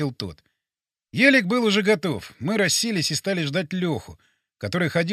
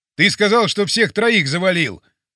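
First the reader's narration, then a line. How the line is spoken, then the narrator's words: Shouting. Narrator (Russian): закричал Пьеро на Вовчика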